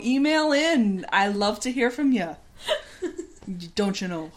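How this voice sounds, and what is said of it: Put-on Upper Midwest accent. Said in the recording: “you're from, you know, Wisconsin or ... Minnesota ... Or one of the Dakotas ... anywhere where this accent happens. ... This accent”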